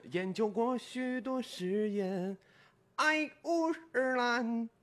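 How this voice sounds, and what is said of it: Imitates another singer's singing voice. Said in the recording (Chinese): “模仿一下杨坤老师...他就是前一句跟后一句的差别很大...蛮像的，蛮像的”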